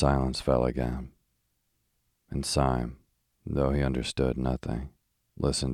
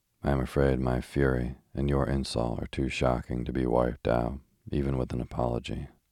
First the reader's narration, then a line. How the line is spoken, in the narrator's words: said Gregory very calmly